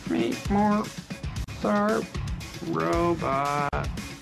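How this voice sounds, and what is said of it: Bad robot voice impression. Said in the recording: “do the robot voice ... That's a terrible robot voice.”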